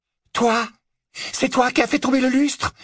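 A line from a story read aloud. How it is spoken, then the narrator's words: Exclaimed. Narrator (French): s'exclama Narcissa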